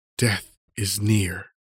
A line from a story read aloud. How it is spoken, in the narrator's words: pain and weakness still increasing seem to whisper